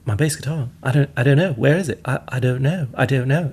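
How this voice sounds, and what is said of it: Poor put-on British accent. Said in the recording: “I did a terrible hatchet job of... The British accent is sounds so civilized and polite”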